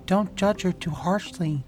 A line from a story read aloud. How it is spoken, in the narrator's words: a whisper answer